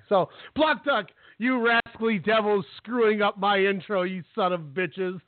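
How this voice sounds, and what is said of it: Restrained mock yelling. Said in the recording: “still yelling but not yelling”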